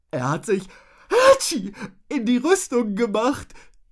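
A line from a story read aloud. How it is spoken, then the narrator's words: Giggling. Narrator (German): stellte Rotznase kichernd fest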